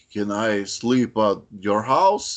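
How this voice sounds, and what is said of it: Put-on Russian-sounding giant's voice. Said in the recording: “why is he Russian all of a sudden? ... I was going for an Andre the Giant impersonation”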